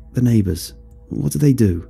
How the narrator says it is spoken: asked

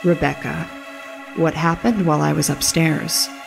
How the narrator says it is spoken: John asked calmly

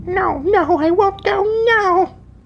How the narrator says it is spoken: the child broke away and grabbed Jing and wailed

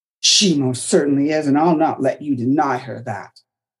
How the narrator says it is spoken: Margaret snapped back, quickly coming to Isabel's defense

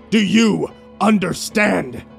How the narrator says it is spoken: barked

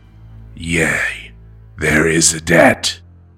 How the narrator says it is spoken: Nemira growled implacably

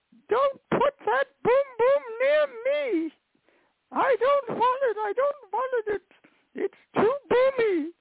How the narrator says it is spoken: she goes, ah, screaming into the night

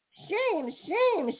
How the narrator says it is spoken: shouted the Merry Little Breezes

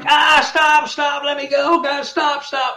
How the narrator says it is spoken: he was screaming

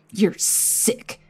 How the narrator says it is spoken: Nico spat

